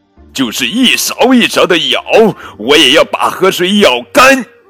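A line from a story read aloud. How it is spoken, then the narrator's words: Angry. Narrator (Chinese): 牛郎愤怒地说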